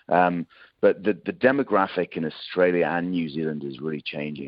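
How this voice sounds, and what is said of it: British accent. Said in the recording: “I'm probably tell from accent I'm a Brit.”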